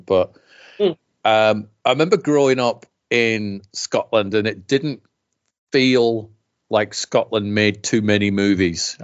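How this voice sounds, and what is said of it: Mixed Scottish-British accent. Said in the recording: “Somebody thought I was from Bristol the other week ... my weird mongrel accent ... I was born in Scotland”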